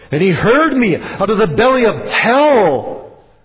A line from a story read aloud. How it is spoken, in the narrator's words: cried I